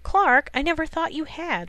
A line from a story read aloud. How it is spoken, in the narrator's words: Lois exclaimed